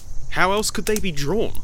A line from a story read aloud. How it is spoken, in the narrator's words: he asked